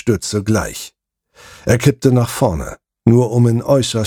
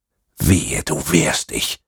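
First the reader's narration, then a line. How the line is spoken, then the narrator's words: Grinning whisper in ear. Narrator (German): flüsterte ich ihm hörbar grinsend ins Ohr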